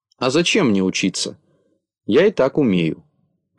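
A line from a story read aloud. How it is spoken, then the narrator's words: Plain reply. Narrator (Russian): ответил Незнайка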